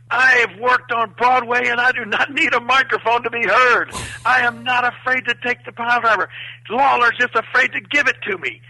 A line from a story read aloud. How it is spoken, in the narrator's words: he starts screaming